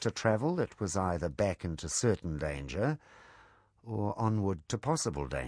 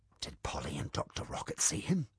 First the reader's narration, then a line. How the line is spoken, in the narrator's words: Beatrix whispered